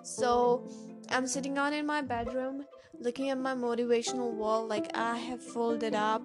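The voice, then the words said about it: Indian accent, voice cracking. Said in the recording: “the voice is, you know, cracking sometimes, and my American accent is getting down to an Indian accent”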